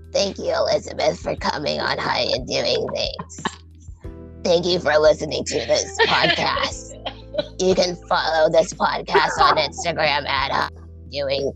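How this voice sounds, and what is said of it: Creepy put-on voice. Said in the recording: “in that creepy voice, even though I don't like it ... Say my outro in the creepy voice”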